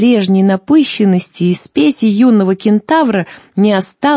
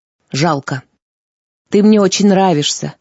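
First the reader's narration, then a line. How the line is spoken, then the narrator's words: Young man sighing, confiding. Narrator (Russian): вздохнул юноша и неожиданно доверительно признался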